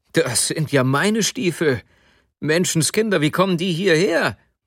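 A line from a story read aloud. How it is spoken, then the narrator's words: Sudden exclamation. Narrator (German): Plötzlich rief er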